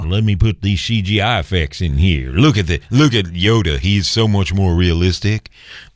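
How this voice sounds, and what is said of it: Put-on slack-jawed yokel accent. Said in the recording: “slack-jawed yokel? What was that accent?”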